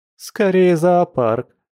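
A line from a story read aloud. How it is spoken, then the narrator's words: Laughing. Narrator (Russian): засмеялась подруга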